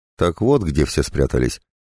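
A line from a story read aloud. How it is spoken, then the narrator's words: Snorting. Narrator (Russian): хмыкнула Таисия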